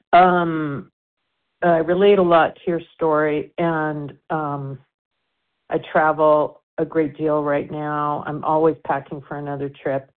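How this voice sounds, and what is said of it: Hoarse, throaty voice. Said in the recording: “I have a frog in my throat.”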